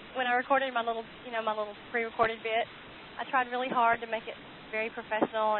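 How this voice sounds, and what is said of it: Southern American accent. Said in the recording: “has an adorable Southern accent.”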